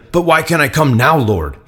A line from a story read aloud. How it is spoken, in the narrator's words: asked